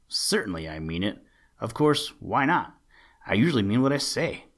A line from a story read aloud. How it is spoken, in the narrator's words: grumbled Buster Bear